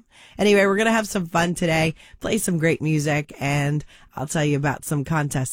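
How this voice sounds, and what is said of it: Raspy, hoarse voice. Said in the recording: “My voice is still kind of shot... it's coming out like a raspy voice on the radio”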